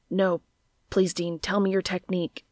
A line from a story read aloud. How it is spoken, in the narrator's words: nearly shouted